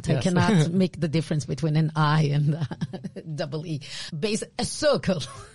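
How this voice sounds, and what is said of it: Israeli accent. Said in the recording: “my Israeli accent.”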